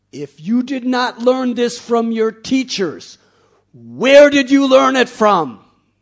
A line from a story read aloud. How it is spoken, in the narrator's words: Hiranyakashipu screamed at Prahlad